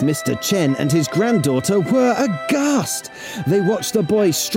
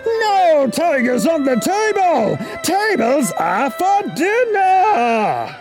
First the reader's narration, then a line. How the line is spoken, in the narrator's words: Chen roared